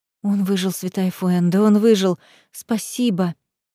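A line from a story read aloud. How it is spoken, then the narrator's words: Relieved whisper. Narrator (Russian): с облегчением прошептала я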